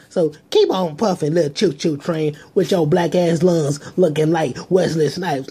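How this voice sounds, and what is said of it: Poor Cat Williams impression. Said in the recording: “That's a terrible Cat Williams impersonation. I'm not an impersonator.”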